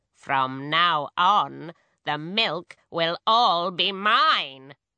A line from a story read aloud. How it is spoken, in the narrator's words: she cackled